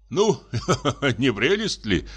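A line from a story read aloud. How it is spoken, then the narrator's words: Laughing. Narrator (Russian): засмеялся дядя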